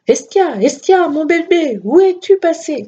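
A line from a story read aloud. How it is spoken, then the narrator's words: Shouted. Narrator (French): criait-elle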